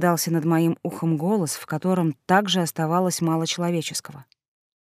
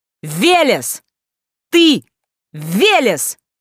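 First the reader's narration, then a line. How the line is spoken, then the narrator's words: Yelling over wind. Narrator (Russian): заорал Василий, перекрикивая неизвестно откуда взявшийся ветер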